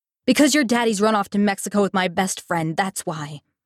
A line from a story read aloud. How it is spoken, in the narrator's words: Mama snapped back